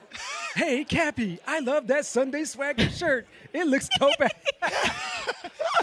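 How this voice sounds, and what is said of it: Imitates another person's voice. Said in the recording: “he's doing an impression ... Third generation”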